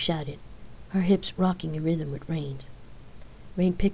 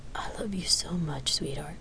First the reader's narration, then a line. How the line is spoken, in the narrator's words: Rain whispered, passionate